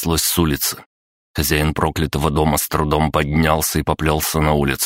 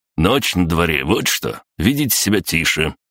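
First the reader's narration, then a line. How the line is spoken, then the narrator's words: Growling neighbor. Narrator (Russian): прорычал сосед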